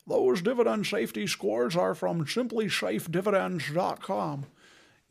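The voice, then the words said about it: Bad Sean Connery impression. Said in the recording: “Is that Sean Connery doing the worst accent ever? ... I'm channeling the ghost of Sean Connery”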